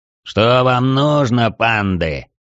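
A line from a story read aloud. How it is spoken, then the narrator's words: Low booming voice. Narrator (Russian): прогудел Цверк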